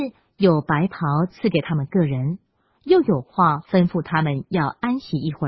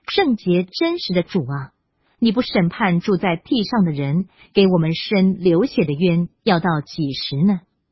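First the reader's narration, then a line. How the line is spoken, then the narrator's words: Loud crying out. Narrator (Chinese): 他们大声喊叫说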